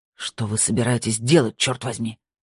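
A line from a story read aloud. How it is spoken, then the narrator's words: Hissing. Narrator (Russian): прошипел Гульбрансон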